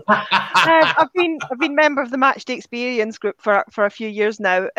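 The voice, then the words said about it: Scottish accent. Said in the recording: “I've got a Scottish accent.”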